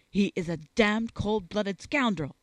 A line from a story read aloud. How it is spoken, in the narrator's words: exclaimed the young officer fiercely